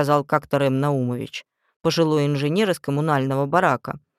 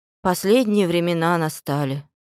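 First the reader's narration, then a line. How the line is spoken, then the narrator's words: Sighing. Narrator (Russian): вздохнула Пална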